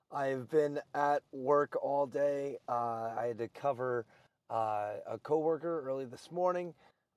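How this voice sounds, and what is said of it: Strained, failing voice. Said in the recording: “If you probably couldn't tell, my voice is going out on me.”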